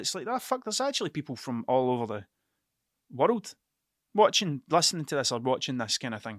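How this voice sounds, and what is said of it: Scottish accent. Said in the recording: “my accent. Because of my Scottish accent,”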